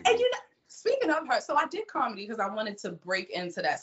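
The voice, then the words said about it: Baltimore accent. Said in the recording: “the Baltimore accent ... is my accent that thick?”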